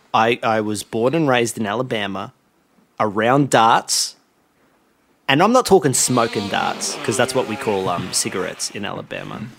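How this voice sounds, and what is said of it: Put-on heavy American accent. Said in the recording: “I'm from Alabama, hence the heavy accent.”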